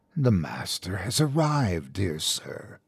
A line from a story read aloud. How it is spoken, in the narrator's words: it whispered